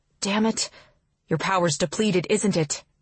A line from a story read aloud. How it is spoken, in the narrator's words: When the dizziness finally subsides and I find myself lying on the ground, I mumble